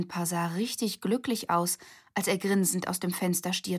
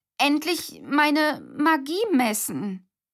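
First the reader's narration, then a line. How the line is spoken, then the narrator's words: Stuttering. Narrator (German): stotterte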